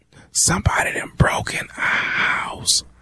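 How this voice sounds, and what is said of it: Quiet whispered speech. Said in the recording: “Man, speak up. I can't hear you. ... why the hell are you whispering?”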